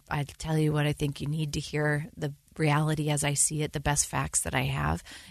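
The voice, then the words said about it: Hoarse, congested voice. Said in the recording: “Pardon my cold, by the way, I have a frog in my throat”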